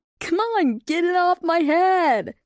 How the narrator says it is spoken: Lightning laughed and called out

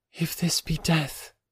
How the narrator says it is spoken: she murmured

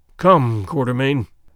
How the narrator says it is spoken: groaned Sir Henry

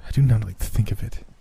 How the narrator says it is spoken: she said unsteadily

